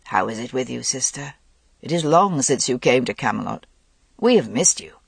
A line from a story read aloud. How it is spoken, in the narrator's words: Under cover of the music, Arthur said softly to Morgaine